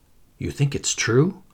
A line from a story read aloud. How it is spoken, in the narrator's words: whispered